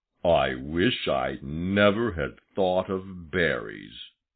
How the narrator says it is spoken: growled Buster to himself

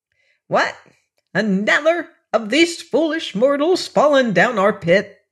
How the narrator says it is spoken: she cried angrily

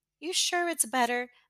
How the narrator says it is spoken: Melanie teased with a bewildered chuckle

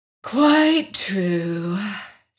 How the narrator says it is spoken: sighed the princess

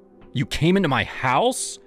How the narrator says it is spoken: I snapped

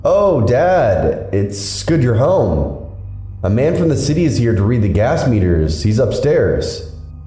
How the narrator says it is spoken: She called out loudly into the house

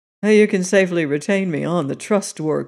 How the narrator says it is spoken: said dryly

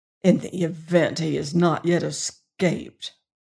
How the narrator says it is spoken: the warden smiled grimly

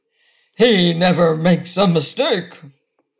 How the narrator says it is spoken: the growl of the big lavender bear grew louder, and he said in a tone of triumph

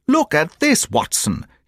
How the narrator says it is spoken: he cried

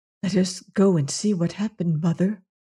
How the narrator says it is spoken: he whispered to Soa

